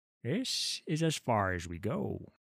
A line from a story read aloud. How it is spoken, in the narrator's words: said Olar in a low voice